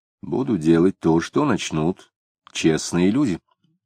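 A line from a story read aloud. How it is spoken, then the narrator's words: Calm reply. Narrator (Russian): спокойно ответил Самгин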